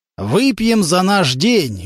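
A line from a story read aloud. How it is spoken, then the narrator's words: Loud feigned drunken speech. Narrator (Russian): громко изображая из себя пьяного, говорил Карнаухов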